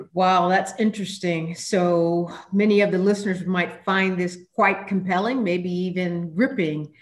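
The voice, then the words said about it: American accent. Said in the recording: “Your voice clearly is not a New Zealand accent. The astute listener will hear that you're from the United States.”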